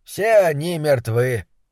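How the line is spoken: Impassive tone. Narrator (Russian): бесстрастным тоном сообщил он

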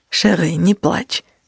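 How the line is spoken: Soft. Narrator (Russian): мягко сказал Лицеум

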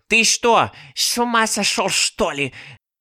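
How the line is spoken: Hissing. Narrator (Russian): зашипела на него Баба-Яга

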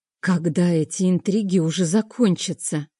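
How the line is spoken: Groaning. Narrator (Russian): простонала

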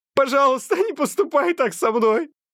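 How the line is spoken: Sobbing. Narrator (Russian): всхлипывает Адам

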